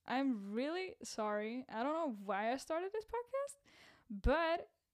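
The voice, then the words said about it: Cracking, strained voice. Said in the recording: “my cracked up voice ... my voice is quite messed up ... You might expect some voice cracks”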